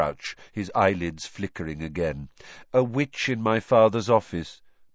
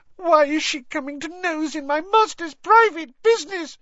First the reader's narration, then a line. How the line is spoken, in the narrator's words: sobbed Winky